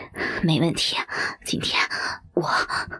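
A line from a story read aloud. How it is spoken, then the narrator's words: Panting. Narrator (Chinese): 许老板喘着大气说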